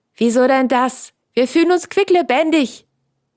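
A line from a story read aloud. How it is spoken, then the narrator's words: Call out. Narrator (German): rief Franz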